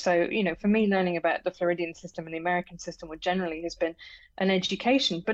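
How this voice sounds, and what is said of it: British accent. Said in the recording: “as you can tell from my accent, I'm British.”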